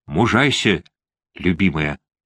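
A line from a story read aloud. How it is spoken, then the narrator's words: Whispered. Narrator (Russian): прошептал он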